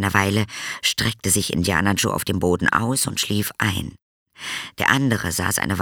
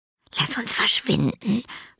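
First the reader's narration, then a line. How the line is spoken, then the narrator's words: Whisper. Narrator (German): flüsterte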